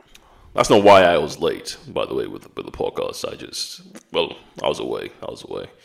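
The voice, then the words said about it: Stuffy, congested voice. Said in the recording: “I have a cold, so if I sound a little stuffy, it's because it's because I have a cold.”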